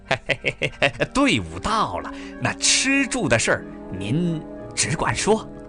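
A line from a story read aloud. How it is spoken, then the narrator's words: Fawning laugh. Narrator (Chinese): 书记官点头哈腰的笑着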